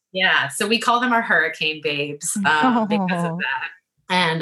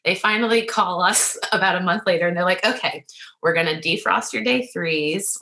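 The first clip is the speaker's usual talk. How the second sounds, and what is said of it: Emotional, choked-up voice. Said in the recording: “getting emotional thinking about it? ... Yes.”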